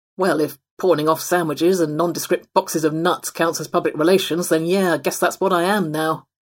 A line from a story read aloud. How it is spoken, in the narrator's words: the possum grumbled